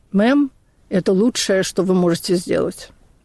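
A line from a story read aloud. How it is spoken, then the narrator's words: Tired. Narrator (Russian): оператор сказал устало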